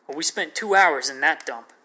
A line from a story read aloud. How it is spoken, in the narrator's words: Kenneth stated angrily